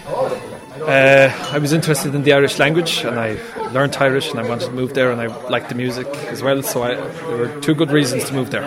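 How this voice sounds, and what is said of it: Slight Italian accent. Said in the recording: “I'm from Italy originally ... You have a bit of an accent.”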